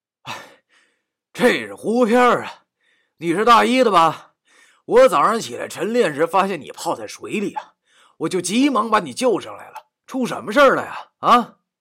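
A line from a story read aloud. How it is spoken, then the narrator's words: Feigned panting. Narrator (Chinese): 我装着喘粗气的样子对他说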